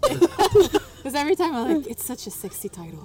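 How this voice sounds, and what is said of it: Put-on sultry sexy voice. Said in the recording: “And I made that voice on purpose... Is that your sexy voice?... That's my sexy voice... It doesn't feel authentic at all.”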